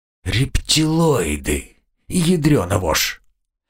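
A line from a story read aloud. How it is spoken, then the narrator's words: Quiet muttering. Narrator (Russian): Мое тихое бормотание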